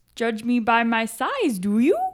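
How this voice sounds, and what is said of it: Yoda impression. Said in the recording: “That was Yoda. ... That's a perfect Yoda. ... You have to have the inflection at the end.”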